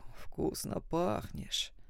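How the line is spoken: Quiet hoarse drawl close by. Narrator (Russian): цедит тихий хриплый голос над ухом

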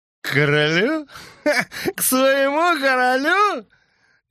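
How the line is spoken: Shrill mad laughter. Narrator (Russian): Яга визгливо, точно безумец, захохотал

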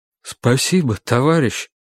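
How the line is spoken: Trembling voice. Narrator (Russian): сказал человек дрогнувшим голосом

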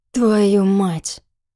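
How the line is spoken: Through clenched teeth. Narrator (Russian): процедил он сквозь сомкнутые зубы

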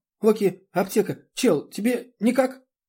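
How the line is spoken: Hurried explanation. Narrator (Russian): она торопливо объясняет

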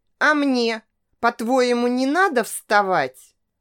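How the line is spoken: Irritated retort. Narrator (Russian): Раздраженно отреагировал

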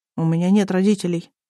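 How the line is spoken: Uncertain child's voice. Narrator (Russian): неуверенно сказал мальчик

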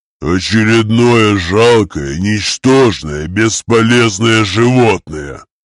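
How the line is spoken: Growling orc. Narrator (Russian): прорычал орк

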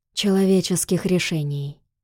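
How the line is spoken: Quiet but clear. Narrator (Russian): произнес он тихо, но отчетливо

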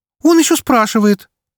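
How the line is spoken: Cheerful laughter. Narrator (Russian): весело рассмеялась лисичка

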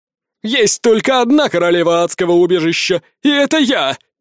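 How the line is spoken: Woman yelling. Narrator (Russian): Орала та, которую я помиловал

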